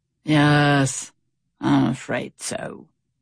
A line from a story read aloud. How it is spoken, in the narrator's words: sighed Stout Sam